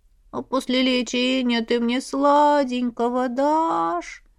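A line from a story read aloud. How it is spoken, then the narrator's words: Thin wheedling childlike voice. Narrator (Russian): Тоненьким голосочком, каким обычно малышня выпрашивала конфеты, спросил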